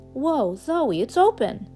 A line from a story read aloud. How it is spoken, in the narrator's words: Pip exclaimed